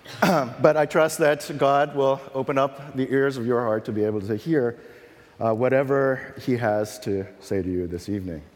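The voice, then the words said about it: Unusually deep, lowered sick voice. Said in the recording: “As you can tell, I'm fighting something off, and my voice has dropped an octave... rich, you know, baritone voice”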